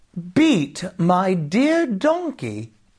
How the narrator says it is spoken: exclaimed Jamie

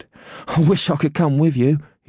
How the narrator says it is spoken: said breathlessly

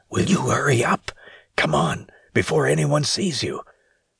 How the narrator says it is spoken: he yelled out in a hushed whisper

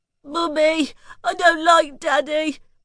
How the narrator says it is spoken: Daisy said between sobs

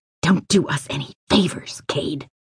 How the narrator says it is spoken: Jamie hissed

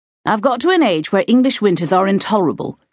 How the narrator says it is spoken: she said

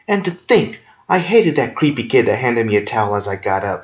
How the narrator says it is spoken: she moaned

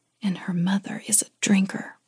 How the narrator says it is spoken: Elena took a breath and then whispered

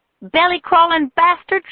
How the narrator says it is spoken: she spat out

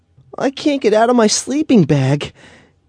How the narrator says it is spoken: he whined

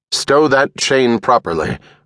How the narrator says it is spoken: Urquhart said in his most commanding voice

